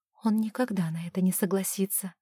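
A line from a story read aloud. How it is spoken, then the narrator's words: Quiet remark. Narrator (Russian): тихо заметила Оливия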